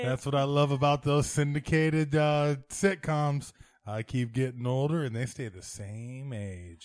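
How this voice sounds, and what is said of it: Imitates another person's voice. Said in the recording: “my Matthew McConaughey impression ... It's a bad Matthew McConaughey impression.”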